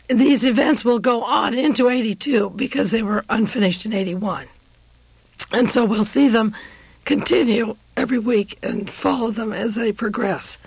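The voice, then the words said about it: Hoarse, failing voice. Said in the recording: “I'm losing my voice. I had the flu last night. ... I really am losing my voice.”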